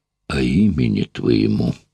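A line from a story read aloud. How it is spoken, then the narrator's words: Quiet speech. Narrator (Russian): негромко сказал он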